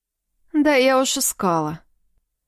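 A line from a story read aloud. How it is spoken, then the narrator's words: Sighing. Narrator (Russian): вздохнула Юлька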